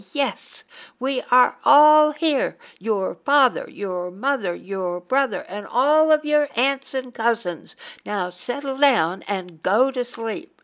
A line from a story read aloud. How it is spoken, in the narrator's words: one of the passengers sharing their sleeper car finally lost his patience and shouted loudly